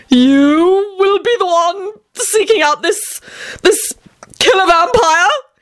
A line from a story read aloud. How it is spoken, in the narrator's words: he screamed in a panicked voice